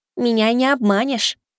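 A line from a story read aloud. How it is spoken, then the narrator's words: Childlike voice, declaring. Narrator (Russian): заявил бог смерти детским голоском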